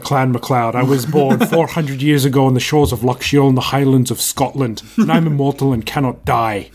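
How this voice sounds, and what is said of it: Christopher Lambert's faux Scottish accent. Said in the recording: “I just said it in the exact right tone of our good friend Christopher Lambert ... who does a terrible Scottish accent ... you didn't do a Scottish accent. You did Christopher Lambert doing a Scottish accent ... I love his faux Scottish accent”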